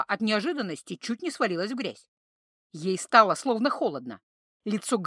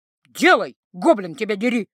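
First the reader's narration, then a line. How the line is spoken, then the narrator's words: Sudden bark. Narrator (Russian): рявкнула вдруг Гретхен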